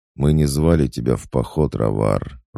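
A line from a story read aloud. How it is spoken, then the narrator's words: Even-toned general. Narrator (Russian): ровным тоном произнес генерал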